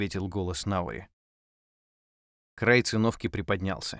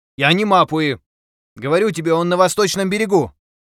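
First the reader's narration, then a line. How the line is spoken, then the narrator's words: Loud crying. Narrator (Russian): Нгакура громко заплакала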